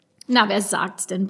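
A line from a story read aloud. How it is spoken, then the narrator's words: Grumbling. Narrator (German): brummte er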